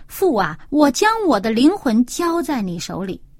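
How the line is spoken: Loud cry. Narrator (Chinese): 耶稣大声喊着说

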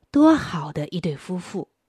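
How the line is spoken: Admiring exclamation. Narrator (Chinese): 人们不禁要感叹说

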